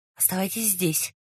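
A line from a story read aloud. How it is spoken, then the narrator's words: Whisper. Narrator (Russian): шепнул Раст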